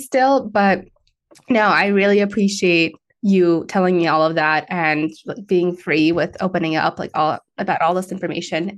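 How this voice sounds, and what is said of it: Slightly raspy voice. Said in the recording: “Excuse my voice coming in and out here. I'm just coming out of COVID. So my voice like a little bit raspy”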